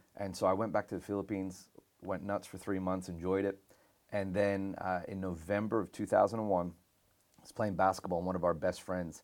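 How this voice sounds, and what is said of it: American accent. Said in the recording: “That's why I have this accent. ... I got an American accent because I went to an American missionary school there.”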